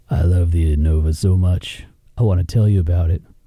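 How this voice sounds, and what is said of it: Put-on sexy seductive voice. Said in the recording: “Let me hear your sexy voice. ... This kind of sounds like you're talking to a sweat sock.”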